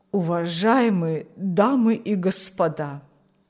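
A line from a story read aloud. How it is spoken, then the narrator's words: Old man, trembling voice. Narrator (Russian): начал старик дрожащим голосом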